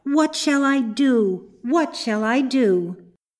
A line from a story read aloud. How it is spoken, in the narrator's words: she cried